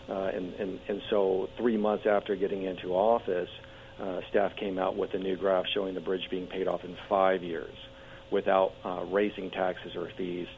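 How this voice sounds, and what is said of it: Strained, fading voice. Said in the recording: “Sorry, I'm losing my voice. I've been talking so much.”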